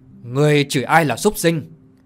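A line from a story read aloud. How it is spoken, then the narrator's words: Angry shout. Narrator (Vietnamese): tức giận mà quát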